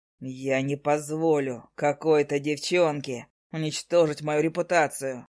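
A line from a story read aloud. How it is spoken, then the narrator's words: Growling. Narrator (Russian): прорычал он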